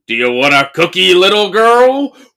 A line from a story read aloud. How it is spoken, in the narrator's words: in the weirdest voice goes